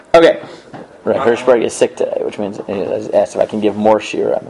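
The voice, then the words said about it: Weak voice recovering from loss. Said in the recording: “My voice is... I'm just getting recovering from my voice being gone... I'm recovering”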